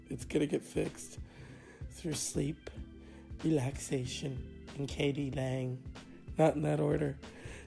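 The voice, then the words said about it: Sick, strained broken voice. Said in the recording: “I'm under the weather. Obviously, my voice is broken.”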